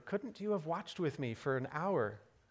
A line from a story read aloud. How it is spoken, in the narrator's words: gently chided